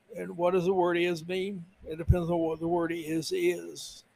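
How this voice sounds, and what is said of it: Imitates another person's voice. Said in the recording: “the Bill Clinton impersonation”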